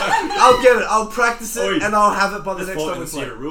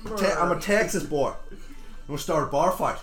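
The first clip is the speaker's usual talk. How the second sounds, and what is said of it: Attempted Texas southern drawl. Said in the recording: “do like a bit of a southern drawl,... Texas,... that's the Texas.”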